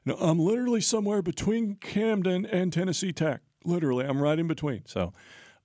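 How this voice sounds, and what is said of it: Imitates another person's voice. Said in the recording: “That was a great impression. ... You could have fooled me completely.”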